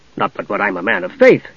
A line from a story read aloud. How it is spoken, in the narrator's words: he added hastily